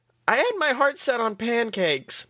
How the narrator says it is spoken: Mabel moaned

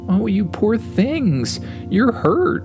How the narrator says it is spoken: exclaimed

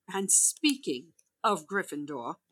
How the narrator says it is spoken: Professor McGonagall said sharply

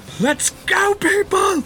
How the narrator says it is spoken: I'll just shout

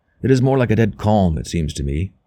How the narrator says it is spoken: he said

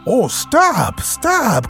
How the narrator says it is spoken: cried the mole in ecstasies

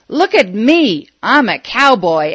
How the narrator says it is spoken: He hollered

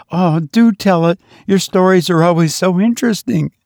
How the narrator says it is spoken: cried, such a pretty blending of entreaty and command

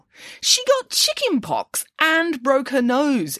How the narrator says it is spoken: exclaimed Nanny Piggins

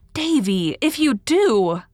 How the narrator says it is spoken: cried Anne, realizing her mistake

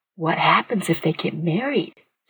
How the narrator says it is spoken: Candy whispered

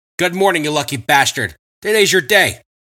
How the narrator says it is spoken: exclaimed Willie

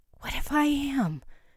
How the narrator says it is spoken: whispered, holding back tears

